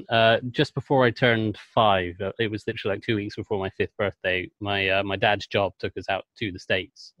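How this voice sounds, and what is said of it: English accent. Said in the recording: “I'm English, and you probably picked that up from the accent”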